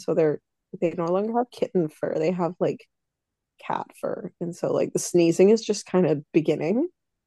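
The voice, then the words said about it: Congested, sounds like a cold. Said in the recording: “I feel like I sound like I have a cold right now”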